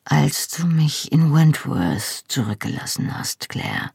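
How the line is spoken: Quiet, head lowered. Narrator (German): sagte er leise, ohne den Kopf zu heben

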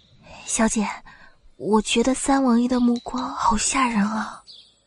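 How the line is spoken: Low voice. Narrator (Chinese): 低声说道

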